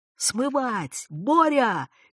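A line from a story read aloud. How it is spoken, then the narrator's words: Shouting doctor. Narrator (Russian): крикнул доктор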